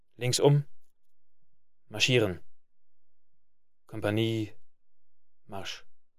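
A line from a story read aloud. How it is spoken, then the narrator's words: Small quiet voice, boy. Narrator (German): die Stimme des diensttuenden Zöglings, klein und leise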